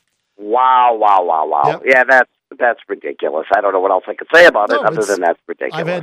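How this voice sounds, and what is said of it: Hoarse, sick-sounding voice. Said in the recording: “do you have a cold? You sound like you're sick... I'm battling laryngitis just a little bit... It gives me those dulcet radio tones.”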